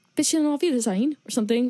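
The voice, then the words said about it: Put-on accent, came out British. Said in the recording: “Almost sounds like a German word ... Oh, that was a British accent.”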